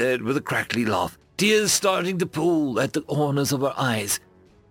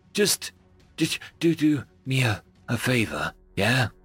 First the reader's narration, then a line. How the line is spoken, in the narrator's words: He said to her weakly